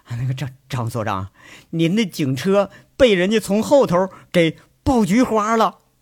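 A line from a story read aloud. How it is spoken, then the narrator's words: Breathless, embarrassed. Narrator (Chinese): 保安气喘吁吁呀，挺难为的，说着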